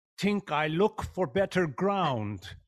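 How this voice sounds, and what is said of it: Put-on Swedish accent. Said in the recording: “Johansson the Swede ... The accent ... Oh, the accent ... I was really good with that Swede line”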